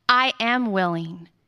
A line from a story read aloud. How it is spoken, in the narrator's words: he said